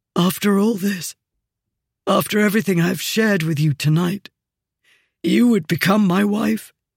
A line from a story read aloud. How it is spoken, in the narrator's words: he said, his voice ragged